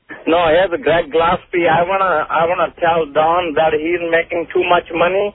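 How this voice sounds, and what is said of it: Silly put-on accent imitating someone. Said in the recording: “Are you trying to do some sort of silly accent? ... With like an Arab accent? ... I think it's like a Scottish thing.”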